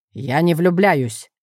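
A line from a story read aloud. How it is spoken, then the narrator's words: Sharp reply. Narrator (Russian): резко ответил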